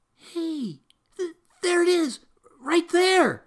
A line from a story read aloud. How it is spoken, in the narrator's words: hollered